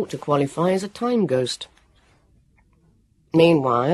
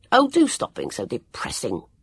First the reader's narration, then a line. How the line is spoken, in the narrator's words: Jonathan snapped at him